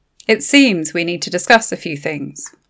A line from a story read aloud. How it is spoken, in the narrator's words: Lorna said